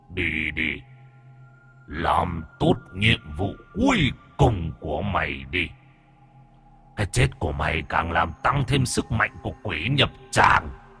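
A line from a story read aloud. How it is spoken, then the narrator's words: Harsh stern command. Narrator (Vietnamese): Người đàn ông gằn giọng ra lệnh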